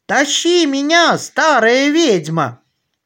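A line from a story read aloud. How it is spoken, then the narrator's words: Shouting. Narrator (Russian): закричал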